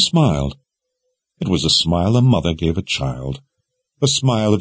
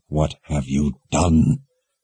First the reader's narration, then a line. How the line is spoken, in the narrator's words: growled through gritted teeth